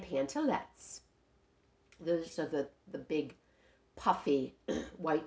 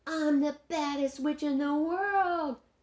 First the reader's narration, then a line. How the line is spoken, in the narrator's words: yelled Ramona